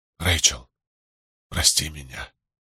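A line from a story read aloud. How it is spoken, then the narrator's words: Whisper. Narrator (Russian): прошептал он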